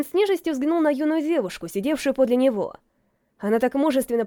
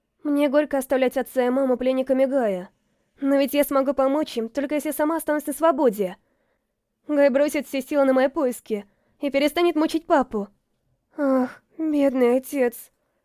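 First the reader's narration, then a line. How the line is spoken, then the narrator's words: Tearful sigh. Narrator (Russian): Вздохнула она, и в глазах ее блеснули слезы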